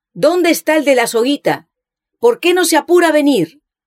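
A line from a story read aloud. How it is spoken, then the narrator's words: Shouted. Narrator (Spanish): él gritó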